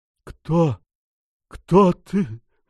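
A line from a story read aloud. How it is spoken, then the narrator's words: Terrified hoarse croak. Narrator (Russian): в ужасе прохрипел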